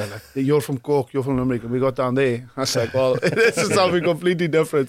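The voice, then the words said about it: South African speaker with Irish accent. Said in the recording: “this guy is a South African accent. He's speaking English with an Irish accent. ... I'm like all over the place”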